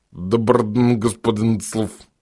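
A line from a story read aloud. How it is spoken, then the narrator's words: Hoarse wheeze. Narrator (Russian): прохрипело создание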